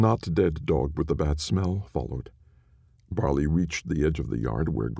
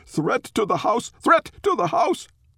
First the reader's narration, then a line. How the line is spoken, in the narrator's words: Barley whimpered, whining and barking in turn, yelling to anyone who could hear